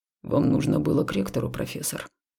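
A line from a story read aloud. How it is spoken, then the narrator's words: Clipped through gritted teeth. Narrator (Russian): сквозь зубы отчеканил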